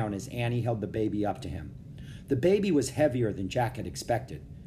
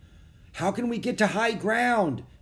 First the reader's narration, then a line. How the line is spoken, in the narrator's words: Jack shouted